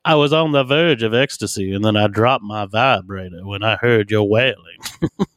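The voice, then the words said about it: Exaggerated fake Southern accent. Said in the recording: “the fakest Southern accent ever. She just talked like she was like a 1700s plantation owner.”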